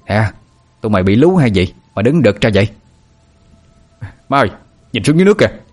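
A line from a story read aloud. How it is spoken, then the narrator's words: Shouting. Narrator (Vietnamese): Bà Mực quát lên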